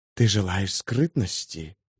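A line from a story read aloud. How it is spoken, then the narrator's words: Whispering. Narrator (Russian): зашептала Телорест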